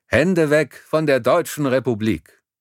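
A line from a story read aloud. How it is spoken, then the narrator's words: Called out. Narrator (German): Er rief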